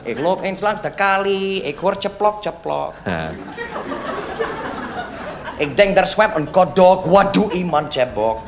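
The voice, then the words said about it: Put-on foreign accent. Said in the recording (Dutch): “Ik zal met mijn accent praten, ja? Ik praat met mijn accent”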